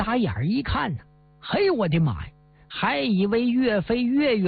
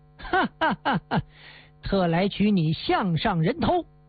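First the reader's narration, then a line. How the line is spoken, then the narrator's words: Laughing heartily. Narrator (Chinese): 张兴祖哈哈一笑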